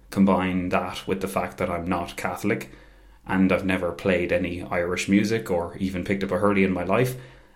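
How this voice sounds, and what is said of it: Posh, not very Irish-sounding accent. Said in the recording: “I was known for sounding really, really posh and not exactly Irish. ... I don't really sound like I'm from here.”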